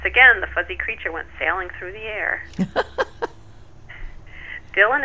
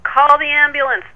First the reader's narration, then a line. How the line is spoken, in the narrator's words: Dylan screamed